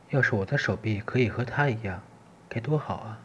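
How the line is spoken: Plain. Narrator (Chinese): 小兔子……一边说

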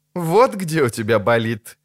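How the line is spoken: Priestess laughing. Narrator (Russian): засмеялась жрица

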